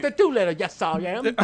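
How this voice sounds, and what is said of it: Bad put-on British accent. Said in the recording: “his shitty British accent”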